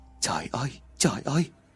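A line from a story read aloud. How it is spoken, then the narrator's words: Muttering. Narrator (Vietnamese): miệng lẩm bẩm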